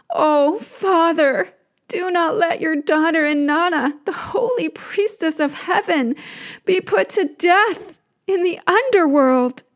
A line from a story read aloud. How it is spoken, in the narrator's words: she cries to him